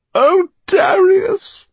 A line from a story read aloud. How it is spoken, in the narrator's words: sobbed Eleanor